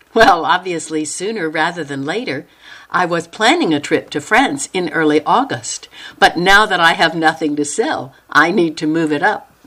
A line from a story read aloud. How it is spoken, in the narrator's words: Noelle laughed and said